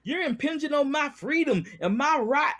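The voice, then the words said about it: Stereotypical Southern US accent. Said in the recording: “I'm doing a Southern stereotypical accent.”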